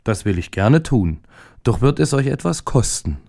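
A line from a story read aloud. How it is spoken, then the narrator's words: Plain. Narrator (German): antwortete der Igel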